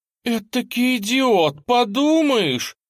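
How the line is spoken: Exclaiming woman. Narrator (Russian): воскликнула тетушка Салли

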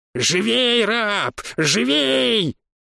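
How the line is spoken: Shrieking. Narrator (Russian): визжала призрак

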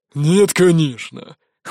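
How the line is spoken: Dismissive snort. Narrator (Russian): хмыкнул тот

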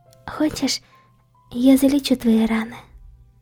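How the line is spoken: Quiet girl's question. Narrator (Russian): Тихо спросила девушка

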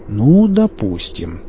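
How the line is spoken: Drawling. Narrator (Russian): протянул Пика

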